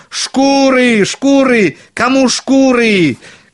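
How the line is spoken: Shouting again. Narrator (Russian): кричал опять большой Клаус

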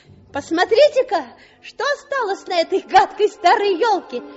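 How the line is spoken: Shouting. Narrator (Russian): крикнул он

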